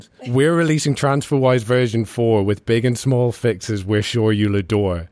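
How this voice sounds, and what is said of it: Musical Irish accent. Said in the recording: “your musical Irish accent”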